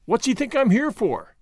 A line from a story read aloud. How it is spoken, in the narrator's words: cried Gordon